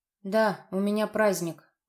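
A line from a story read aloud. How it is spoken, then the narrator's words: Gloomy. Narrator (Russian): мрачно произнесла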